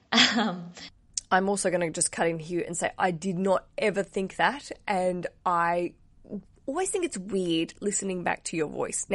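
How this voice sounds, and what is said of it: Deeper voice from a cold. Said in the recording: “I have a cold today and I'm hearing it going, I sound like a bit like a man”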